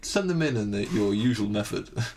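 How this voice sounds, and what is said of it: Polished radio presenter voice. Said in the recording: “That's a good radio voice. You've got a good radio voice.”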